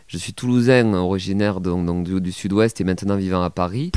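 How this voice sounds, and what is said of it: Slight Toulouse southwestern French accent. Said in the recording (French): “tes auditeurs, ils entendent mon léger accent.”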